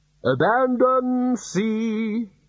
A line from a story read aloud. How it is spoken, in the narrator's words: shouted the bursar cheerfully